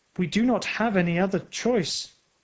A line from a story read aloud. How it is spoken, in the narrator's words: said sadly